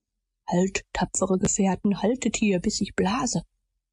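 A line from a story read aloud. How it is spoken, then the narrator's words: Whispering. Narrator (German): flüsterte er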